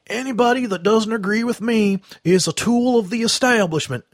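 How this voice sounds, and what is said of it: Bill Clinton impression. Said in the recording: “I got to do the Clinton impersonation.”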